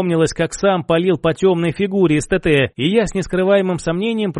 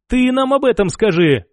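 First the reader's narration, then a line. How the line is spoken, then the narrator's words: Snorting, wry. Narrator (Russian): хмыкнул Альберт Павлович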